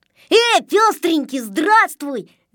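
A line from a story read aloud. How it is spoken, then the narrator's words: Shout. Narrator (Russian): закричал Незнайка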